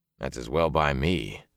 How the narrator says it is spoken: he growled

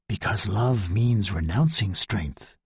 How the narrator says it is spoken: said Franz softly

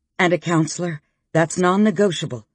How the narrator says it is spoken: Blythe said firmly

